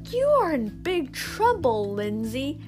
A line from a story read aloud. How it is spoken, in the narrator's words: Miss Devine exclaimed